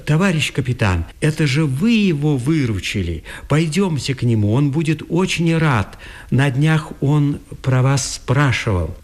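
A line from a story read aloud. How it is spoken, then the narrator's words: Sudden exclamation. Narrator (Russian): Словно вспомнив о чем-то, Мещерский воскликнул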